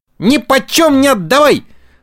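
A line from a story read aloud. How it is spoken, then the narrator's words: Loud yell. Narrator (Russian): завопил Буратино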